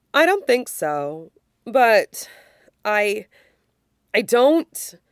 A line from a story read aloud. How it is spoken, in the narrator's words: he sighs